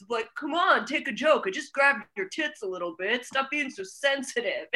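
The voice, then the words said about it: Imitates a generic Long Island guy. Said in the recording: “that was a great impression of a generic guy ... everyone in a club in Long Island”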